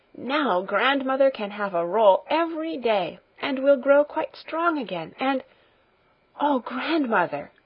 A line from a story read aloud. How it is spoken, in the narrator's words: she suddenly exclaimed, with an increase of jubilation in her voice